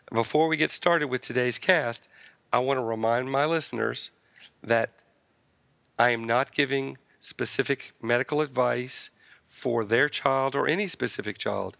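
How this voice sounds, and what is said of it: Congested voice from a cold. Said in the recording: “apologize for my voice. I've got a little cold today, as you probably can tell”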